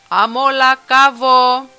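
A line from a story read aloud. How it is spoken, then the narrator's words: Booming sailor's shout. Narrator (Greek): ένας βροντόφωνος ναύτης φώναξε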